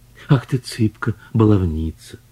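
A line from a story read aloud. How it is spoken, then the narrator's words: Tender murmur. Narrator (Russian): нежно пробормотал Иван Петрович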